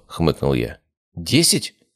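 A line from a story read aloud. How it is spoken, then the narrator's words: Plain question. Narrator (Russian): спросил Илья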